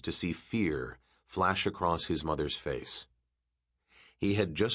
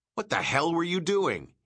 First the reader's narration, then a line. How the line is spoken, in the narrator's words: snapped